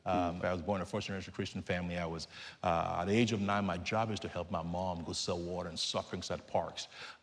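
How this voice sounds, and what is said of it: Nigerian English accent. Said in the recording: “You can tell from my accent, I'm not from Nashville, Tennessee. ... I'm from Lagos, Nigeria.”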